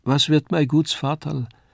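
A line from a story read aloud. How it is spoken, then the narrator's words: Slurred speech. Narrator (German): lallte sie noch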